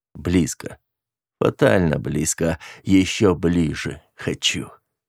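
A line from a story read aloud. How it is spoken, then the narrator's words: Male growl. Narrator (Russian): рыкнул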